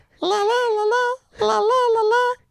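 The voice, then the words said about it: Impression of Elmo. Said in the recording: “do an impression ... Elmo? ... Yeah, do Elmo. Do Elmo.”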